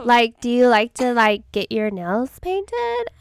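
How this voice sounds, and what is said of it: Valley Girl voice. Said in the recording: “in a Valley Girl voice. And Valley Girls are like typically from like California”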